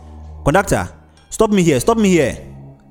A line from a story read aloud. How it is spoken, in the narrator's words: the man yelled